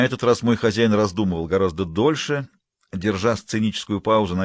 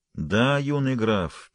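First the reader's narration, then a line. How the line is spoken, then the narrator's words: Sad, smiling. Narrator (Russian): печально улыбнулся Айрондел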